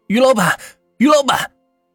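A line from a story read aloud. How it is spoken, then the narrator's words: Repeated calling. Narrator (Chinese): 叫声仍是不停的响着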